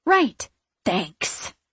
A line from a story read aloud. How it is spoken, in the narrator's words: I hiss